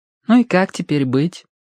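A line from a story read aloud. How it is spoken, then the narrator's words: Sighing. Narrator (Russian): вздохнула Верити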